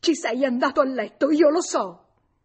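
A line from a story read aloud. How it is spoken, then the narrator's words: Screamed. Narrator (Italian): Clotilde urlò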